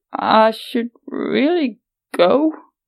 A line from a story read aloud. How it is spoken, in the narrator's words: she croaked